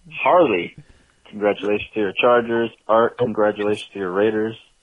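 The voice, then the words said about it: Imitates another person's voice. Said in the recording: “doing Clint Eastwood ... you did a great Clint Eastwood right now ... you did this a great accent”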